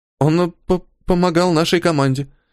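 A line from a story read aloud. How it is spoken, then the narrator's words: Mumbling girl. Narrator (Russian): промямлила девочка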